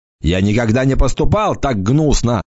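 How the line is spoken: Angry shout. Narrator (Russian): закричал орк, и его лицо покраснело

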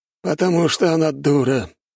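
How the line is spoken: Sigh. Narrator (Russian): вздохнул Саджун

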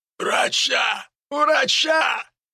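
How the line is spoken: Hoarse wheezing. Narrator (Russian): хрипел мужчина

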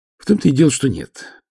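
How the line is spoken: Sighing. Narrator (Russian): вздохнул фигуринский наследник

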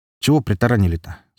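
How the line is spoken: Plain question. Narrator (Russian): спросил Железный

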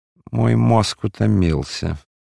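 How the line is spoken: Tired, sighing speech. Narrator (Russian): говорил, устало вздыхая

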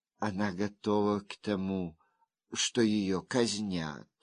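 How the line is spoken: Soft gentle voice. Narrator (Russian): мягко сказала госпожа Го

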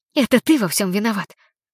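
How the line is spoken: Hissing. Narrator (Russian): прошипела я

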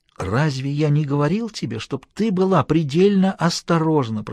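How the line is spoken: Hissing. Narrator (Russian): прошипел он

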